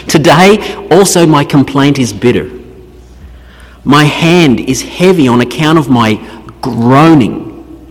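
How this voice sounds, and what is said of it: Australian accent, dropped R's. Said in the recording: “this Australian accent. We never say R's”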